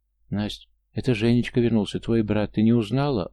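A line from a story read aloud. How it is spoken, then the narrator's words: Tender joyful mother. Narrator (Russian): ласково и радостно заговорила мама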